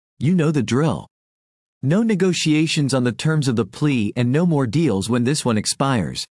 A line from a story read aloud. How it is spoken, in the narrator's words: he had said